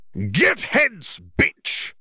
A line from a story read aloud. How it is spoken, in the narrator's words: the Jarvie snarled